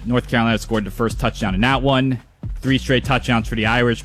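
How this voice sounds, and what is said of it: New York, New Jersey accent. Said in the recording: “I heard your New York accent kind of come out in that update. I heard the New York, New Jersey accent ... Like, it was very New York. I heard it. My Midwest ear the heard the accent.”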